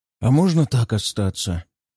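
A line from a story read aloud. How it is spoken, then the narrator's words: Dreamy sigh. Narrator (Russian): мечтательно вздохнул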